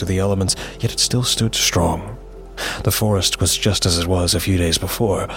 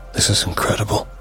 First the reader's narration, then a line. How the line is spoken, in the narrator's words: I whispered